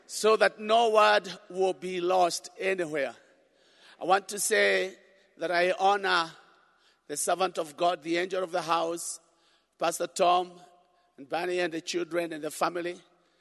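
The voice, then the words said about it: East African accent. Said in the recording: “my East African accent”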